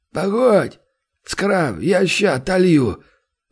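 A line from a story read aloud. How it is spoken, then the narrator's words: Hoarse, drink-ravaged voice outside. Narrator (Russian): произнес кто-то снаружи сиплым, пропитым голосом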